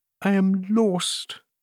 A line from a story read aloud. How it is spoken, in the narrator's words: murmured the queen